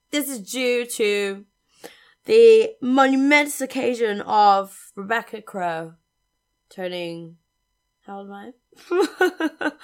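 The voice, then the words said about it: Slightly hoarse voice. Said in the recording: “You may notice, my friends, that I'm slightly hoarse. Nay. In the voice.”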